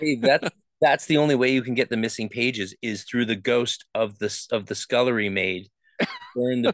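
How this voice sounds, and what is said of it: Usual voice. Nothing is said of it.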